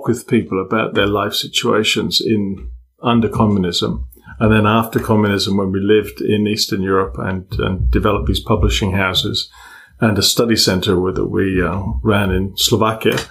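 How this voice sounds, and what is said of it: English accent. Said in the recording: “everybody can tell ... English accent. You just sound smart with your English accent.”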